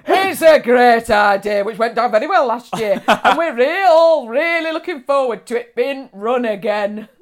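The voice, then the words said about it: Put-on pub landlord accent. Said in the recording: “That accent came from nowhere. ... That's my landlord accent”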